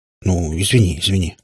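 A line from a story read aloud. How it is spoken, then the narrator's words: Embarrassed mutter, father. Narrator (Russian): смущенно пробормотал папа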